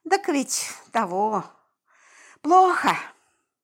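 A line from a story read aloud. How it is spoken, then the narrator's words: Sigh. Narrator (Russian): вздохнул Вася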